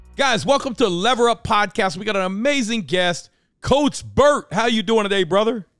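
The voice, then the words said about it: Loud, yelling hype delivery. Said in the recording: “I sound like the coach. I'm yelling. I'm screaming.”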